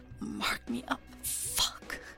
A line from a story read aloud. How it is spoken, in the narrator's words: Wei Wuxian groans